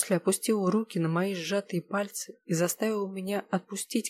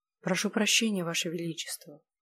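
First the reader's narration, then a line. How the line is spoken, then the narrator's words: Quiet, holding back tears. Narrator (Russian): позвала тихо, стараясь не зареветь от чувства беспомощности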